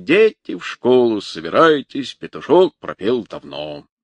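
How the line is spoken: Deep bass voice. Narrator (Russian): кто-то из туристов пробасил со своего места

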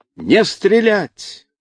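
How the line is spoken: Loud shout. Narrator (Russian): громко закричал Семенов

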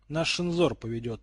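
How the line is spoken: Muttering. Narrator (Russian): пробурчал брюнет

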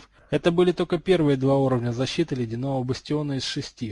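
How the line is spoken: Snorting. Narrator (Russian): хмыкнул Гарольд

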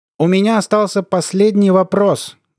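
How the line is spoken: Loud shout to everyone. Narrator (Russian): громко крикнул Хохошуткин, обращаясь ко всем

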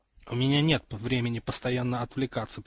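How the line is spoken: Mumbling. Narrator (Russian): пробормотал он

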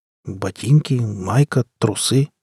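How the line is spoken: Bewildered. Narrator (Russian): сказал я растерянно

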